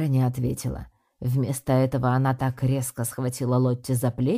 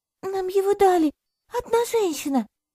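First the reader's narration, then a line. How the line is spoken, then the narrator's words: Frightened answer. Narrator (Russian): испуганно ответила Лотти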